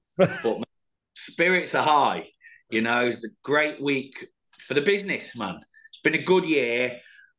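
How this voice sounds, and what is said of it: Voice with a sore throat. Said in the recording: “I'm very cold. I've got a bit of a sore throat”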